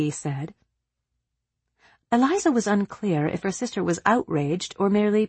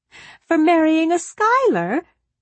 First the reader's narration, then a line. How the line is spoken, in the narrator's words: Peggy laughed out loud